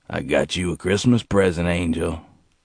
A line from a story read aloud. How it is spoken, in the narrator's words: in that gravelly voice that Gerald hated, said to her